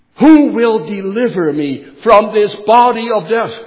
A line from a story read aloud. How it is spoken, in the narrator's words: Paul exclaims